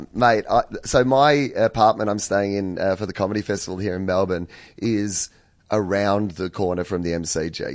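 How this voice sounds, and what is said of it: Croaky, hoarse voice. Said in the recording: “As you can hear, my voice is a bit croaky.”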